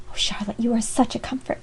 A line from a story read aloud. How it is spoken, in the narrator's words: she found time to whisper